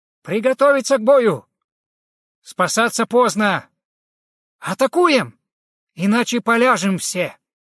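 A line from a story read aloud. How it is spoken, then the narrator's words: Resolute loud shout. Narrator (Russian): Улак, собрав всю силу воли, не показывая страха бандитам, громко крикнул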